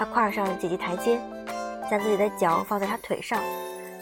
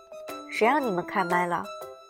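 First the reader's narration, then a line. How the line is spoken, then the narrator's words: Hoarse impatient male voice. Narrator (Chinese): 熟悉的、沙哑的、男人的、不太耐烦的，他的腔调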